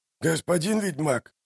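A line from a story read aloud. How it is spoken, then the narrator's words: Quiet. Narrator (Russian): тихо сказал он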